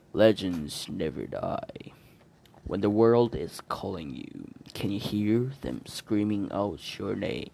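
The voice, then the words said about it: Reading lyrics in a deep voice. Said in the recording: “reading with a deep voice”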